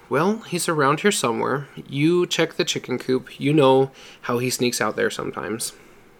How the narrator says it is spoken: Laura swallowed, but calmly said

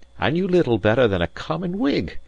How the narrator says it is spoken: cries Allen

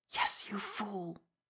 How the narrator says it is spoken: said Laroque, still whispering

